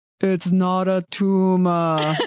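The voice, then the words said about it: Imitates another person's voice. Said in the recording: “doing my best Arnold Schwarzenegger impression from Kindergarten Cop”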